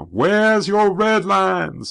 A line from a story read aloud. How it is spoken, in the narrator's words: some college kids were yelling